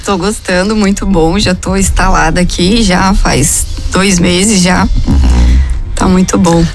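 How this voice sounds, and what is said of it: Slight western-state regional accent. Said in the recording (Portuguese): “Ela tem um sotaque do leite? ... Ela tá com sotaquezinho da região oeste do estado. ... Sotaque de leite quente.”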